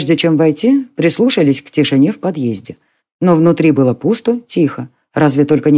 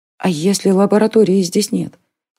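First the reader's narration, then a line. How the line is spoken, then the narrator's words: Quiet question. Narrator (Russian): тихо спросила девушка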